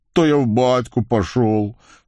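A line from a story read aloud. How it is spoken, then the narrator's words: Rueful sigh. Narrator (Russian): сокрушенно вздохнул Вакула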